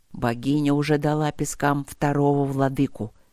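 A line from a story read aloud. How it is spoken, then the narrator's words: Quiet rumble. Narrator (Russian): тихо пророкотал Нории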